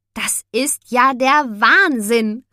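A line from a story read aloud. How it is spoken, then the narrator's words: Exclaimed. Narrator (German): rief Mia aus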